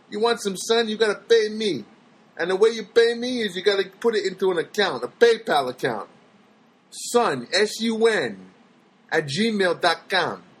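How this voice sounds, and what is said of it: Mafia gangster character voice. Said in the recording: “talking like a mafia guy”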